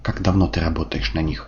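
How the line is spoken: Calm question. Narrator (Russian): спокойно спрашиваю

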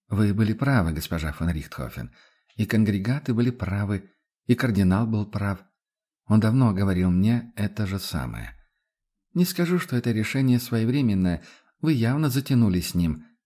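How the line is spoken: Sighing. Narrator (Russian): вздохнула Адельхайда

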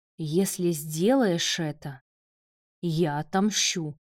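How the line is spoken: Threatening hiss. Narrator (Russian): прошипел Марат

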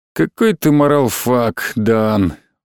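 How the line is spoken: Tired reply. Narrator (Russian): устало ответил Алексис

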